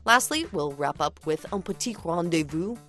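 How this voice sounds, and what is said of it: Bad put-on French accent. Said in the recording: “That was a very bad French accent.”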